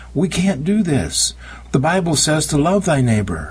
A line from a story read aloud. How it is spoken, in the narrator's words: Pretty woman cried out